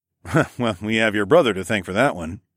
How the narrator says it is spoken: chuckled

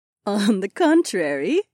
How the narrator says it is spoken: Aliona giggled

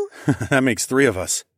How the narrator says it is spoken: I chuckled

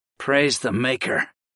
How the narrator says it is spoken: sighed in relief

